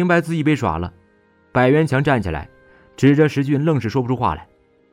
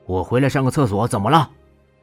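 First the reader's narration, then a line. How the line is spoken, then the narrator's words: Indifferent, offhand. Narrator (Chinese): 靠在墙上的霍刚不痛不痒地说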